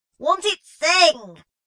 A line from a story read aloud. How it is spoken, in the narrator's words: shouted Scarth in reply